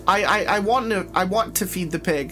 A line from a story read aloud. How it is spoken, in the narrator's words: I cried, not wanting to spend another second in this awful room